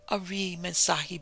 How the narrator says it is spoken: he quavered

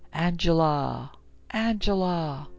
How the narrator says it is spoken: a ghostly and audible voice whispering

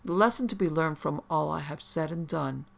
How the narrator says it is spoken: Thunstone assured her gently

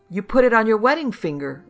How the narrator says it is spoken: Lou wailed

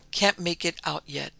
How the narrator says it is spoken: saying calmly

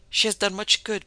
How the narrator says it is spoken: pleaded the girl earnestly

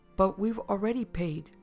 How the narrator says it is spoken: she shouted

